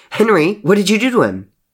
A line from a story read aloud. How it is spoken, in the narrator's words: Murdoch barked in a tone of panic